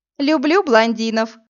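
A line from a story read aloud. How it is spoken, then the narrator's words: Cheerful explanation. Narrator (Russian): весело пояснила Иви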